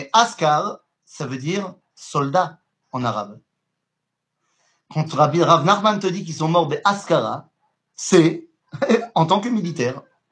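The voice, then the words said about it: Polish accent speaking French. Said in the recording (French): “je le dis certainement très mal avec mon accent polonais”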